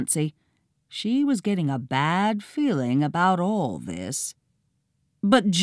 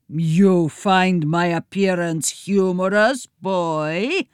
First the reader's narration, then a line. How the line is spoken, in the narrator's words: Leonardo boomed